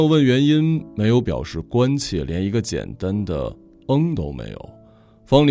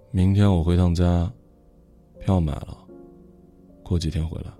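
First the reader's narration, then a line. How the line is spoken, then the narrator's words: Soft murmur. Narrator (Chinese): 轻声的说了一句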